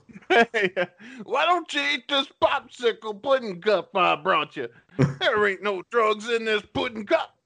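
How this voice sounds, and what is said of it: Imitates another person's voice. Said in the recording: “That's my Bill Cosby impression.”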